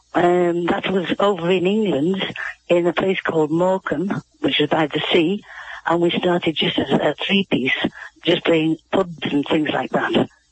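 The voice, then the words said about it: Strong, hard-to-follow accent. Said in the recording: “it may take you a few moments to get accustomed to ... accent”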